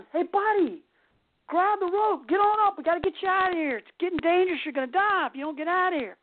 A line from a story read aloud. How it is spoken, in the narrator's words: the guy screams